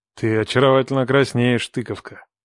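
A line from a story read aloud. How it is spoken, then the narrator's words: Soft. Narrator (Russian): мягко сказал я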